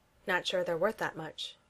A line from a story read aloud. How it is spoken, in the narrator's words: says dryly